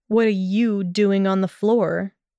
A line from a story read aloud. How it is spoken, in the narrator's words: countered coldly